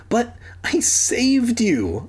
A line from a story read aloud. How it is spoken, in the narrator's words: I pleaded